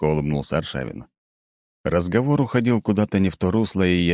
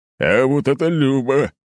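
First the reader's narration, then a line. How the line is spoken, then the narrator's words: Booming laugh. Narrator (Russian): гулко расхохотался глава поселения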